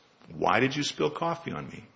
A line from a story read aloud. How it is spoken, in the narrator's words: The old man asks